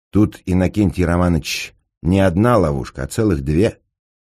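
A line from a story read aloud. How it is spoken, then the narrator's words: Calm explanation. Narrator (Russian): спокойно объяснил господин Неймлис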